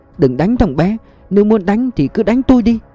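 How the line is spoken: Hurried pleading. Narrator (Vietnamese): Bà mẹ chồng vội van xin

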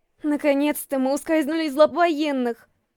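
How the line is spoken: Breathy relieved woman. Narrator (Russian): Выдохнула я

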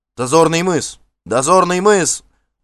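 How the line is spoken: Shouting. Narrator (Russian): закричали на носу

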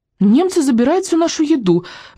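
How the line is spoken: Indignant blurt. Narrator (Russian): возмущенно выпалила Софи

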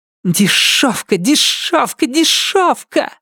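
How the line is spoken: Spiteful hiss. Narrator (Russian): злобно прошипела Салли

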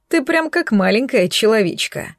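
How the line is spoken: Booming laugh. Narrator (Russian): Гулко хохотнула она

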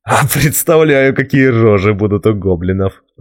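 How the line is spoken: Laughing. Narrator (Russian): засмеялся он

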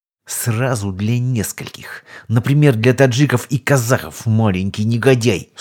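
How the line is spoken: Through gritted teeth. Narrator (Russian): Сквозь зубы процедила легенда

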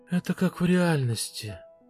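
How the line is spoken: Breathy exhale. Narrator (Russian): выдохнула Фэл

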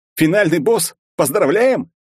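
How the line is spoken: Astonished shout in chorus. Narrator (Russian): Пораженно завопили мы хором

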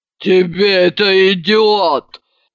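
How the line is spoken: Deep booming voice. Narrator (Russian): пробасила она

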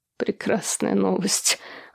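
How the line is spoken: Suddenly hoarse. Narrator (Russian): внезапно охрипшим голосом отреагировал он

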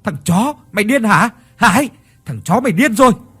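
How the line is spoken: Several shouting at once. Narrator (Vietnamese): ba thằng kia lập tức la hét

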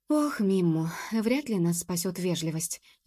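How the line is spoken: Sighing. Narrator (Russian): вздохнула Джуб

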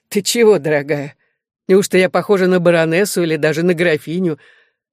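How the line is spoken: Very loud laughter. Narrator (Russian): Она захохотала так громко

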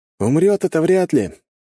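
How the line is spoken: Cheerful. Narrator (Russian): весело кивнул Маркус

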